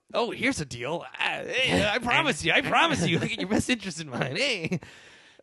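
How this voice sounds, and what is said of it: Imitates another person's voice. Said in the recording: “That's not a good Jack Lemmon impression,”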